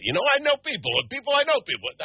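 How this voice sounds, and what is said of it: Somali character in Italian accent. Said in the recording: “I hear me doing a Somalian with an Italian accent”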